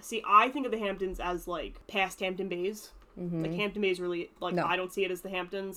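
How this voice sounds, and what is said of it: Thick New York accent. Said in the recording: “we didn't realize how thick our New York accents were ... everybody knows that accent”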